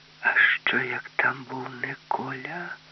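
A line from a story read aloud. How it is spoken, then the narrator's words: Whisper. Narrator (Ukrainian): Юлька зробила страшні очі і прошепотіла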